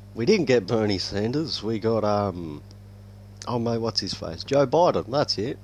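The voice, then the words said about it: Non-American English accent. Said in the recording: “I'm not American, by the way ... if yous haven't figured out by the accent”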